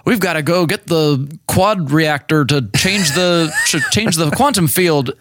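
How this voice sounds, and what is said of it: Impression of Thor's voice. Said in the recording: “I'm trying to figure out what voice that was ... not a nerd voice ... That was clearly Thor.”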